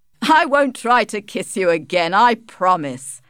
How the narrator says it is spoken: laughed Alec

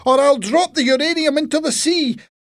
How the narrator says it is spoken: shouted to them

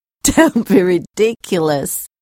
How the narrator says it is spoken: Sarah answered, laughing

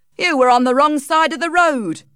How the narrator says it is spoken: shouted the mail cart man

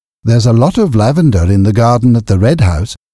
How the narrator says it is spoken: said Aaron

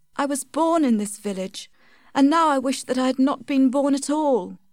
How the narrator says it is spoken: said Tess sadly

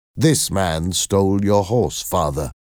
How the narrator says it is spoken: I said

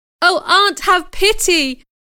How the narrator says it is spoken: I cried desperately

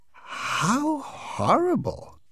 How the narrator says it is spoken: exclaimed Mrs

